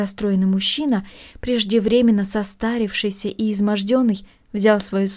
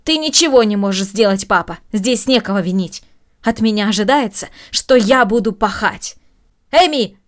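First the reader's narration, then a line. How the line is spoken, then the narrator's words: Raised-voice shout. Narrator (Russian): повысив голос, крикнула Маша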